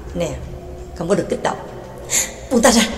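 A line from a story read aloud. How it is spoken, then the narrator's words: Whispered. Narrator (Vietnamese): thì thào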